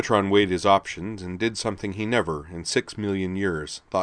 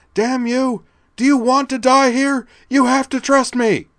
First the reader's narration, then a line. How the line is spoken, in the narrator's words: she demanded at the top of her voice